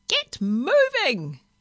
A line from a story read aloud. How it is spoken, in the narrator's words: it screeched